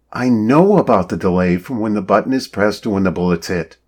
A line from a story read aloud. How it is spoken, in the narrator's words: Shannon told Marty impatiently